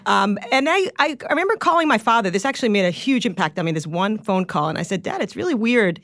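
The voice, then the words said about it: Long Island accent. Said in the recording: “You still have ... The Long Island. ... I got the Long Island ... you do, ... accent. ... You do.”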